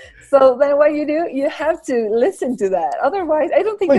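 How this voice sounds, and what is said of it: Usual voice. Nothing is said of it.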